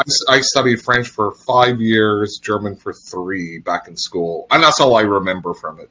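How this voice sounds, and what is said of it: Northern Irish accent. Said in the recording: “my Northern Irish accent ... a little bit of a twang”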